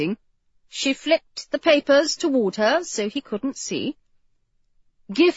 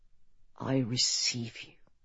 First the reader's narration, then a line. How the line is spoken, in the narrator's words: he whispered